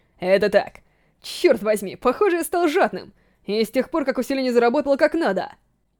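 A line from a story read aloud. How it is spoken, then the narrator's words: Nervous laugh. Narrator (Russian): Отвечая на вопрос Шина, Жерар нервно рассмеялся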